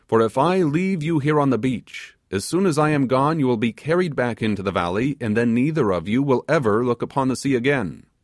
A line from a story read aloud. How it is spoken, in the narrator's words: exclaimed the sailor